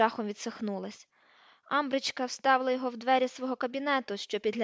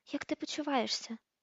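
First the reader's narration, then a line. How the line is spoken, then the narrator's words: Whispered. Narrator (Ukrainian): прошепотіла Герміона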